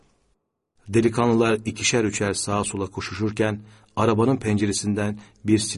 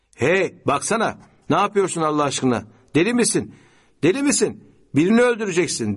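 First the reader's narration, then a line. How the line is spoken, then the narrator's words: Shouted. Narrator (Turkish): diye bağırdı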